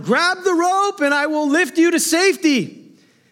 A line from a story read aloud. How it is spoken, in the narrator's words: a pilot shouted down